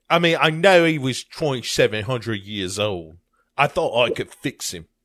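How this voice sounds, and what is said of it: Unconvincing put-on British accent. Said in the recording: “I don't know what actually, accent that is ... that was not a Bristol accent ... that was more like a Dick Van Dyke accent”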